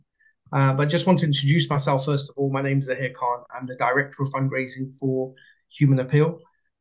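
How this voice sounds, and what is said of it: British accent. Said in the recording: “As you can hear from my accent, I'm still in the UK at the moment, so I haven't kicked in my US accent.”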